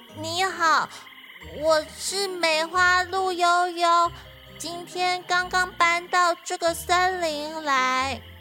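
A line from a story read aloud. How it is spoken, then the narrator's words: Slow, carefully steady voice. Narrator (Chinese): 悠悠很小心的不让自己的声音发抖，于是他慢慢的说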